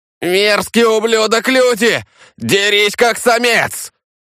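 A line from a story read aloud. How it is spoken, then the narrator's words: Roared, trapped. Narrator (Russian): Взревел Сива, не в силах вырваться из каменного плена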